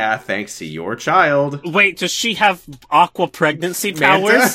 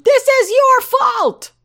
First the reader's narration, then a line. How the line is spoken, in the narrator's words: cried my heart out